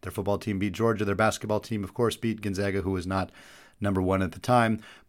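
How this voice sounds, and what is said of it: Dry, strained voice. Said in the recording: “You can hear it in my voice a little bit, having been at the game. It's a little bit dry right now.”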